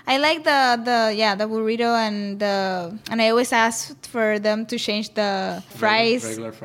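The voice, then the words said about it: Accent that pronounces ch as sh. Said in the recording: “it's a Puerto Rico thing or it's just your accent, but the way you say the shh is like you're from Chihuahua, from Mexico ... we don't differentiate CH or SH”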